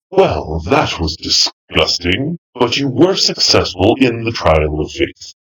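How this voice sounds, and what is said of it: Scary character voice. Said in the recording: “in my last scary voice”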